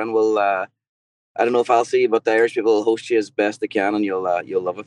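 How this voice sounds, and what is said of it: Irish accent. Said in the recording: “if you hear this accent, this is how God's talking ... God speaks in an Irish accent”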